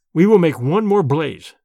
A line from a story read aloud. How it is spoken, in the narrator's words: I said firmly